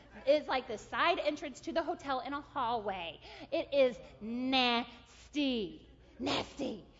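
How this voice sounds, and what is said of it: Weird, annoyed-sounding voice. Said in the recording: “I know I have weird voice on because I am super annoyed”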